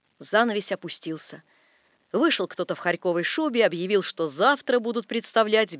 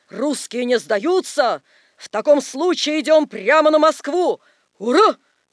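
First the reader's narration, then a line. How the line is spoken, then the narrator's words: Group yelling. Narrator (Russian): заорали маршалы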